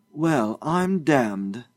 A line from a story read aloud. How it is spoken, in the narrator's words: Josiah exclaimed